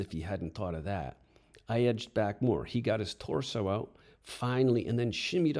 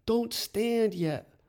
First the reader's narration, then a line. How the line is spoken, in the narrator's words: yelled